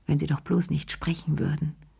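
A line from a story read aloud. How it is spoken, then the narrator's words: Murmured. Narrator (German): murmelte sie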